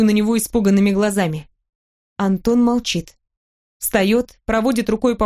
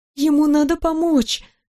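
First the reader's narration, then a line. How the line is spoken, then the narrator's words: Pitying voice. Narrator (Russian): говорю жалостливым голосом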